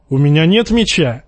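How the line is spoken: Shouted. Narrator (Russian): крикнул Джейми

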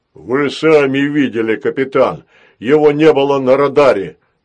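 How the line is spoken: Defensive robot bass. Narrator (Russian): оправдываясь, пробасил робот

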